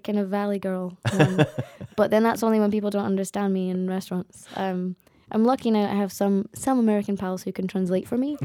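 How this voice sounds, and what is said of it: Strong Glaswegian accent. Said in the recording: “my accent's not very strong. I come from a quite central area ... It's quite strong ... Glaswegian”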